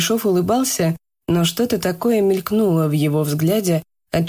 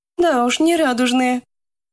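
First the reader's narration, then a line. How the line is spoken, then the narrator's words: Cheerful remark. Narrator (Russian): весело заметила она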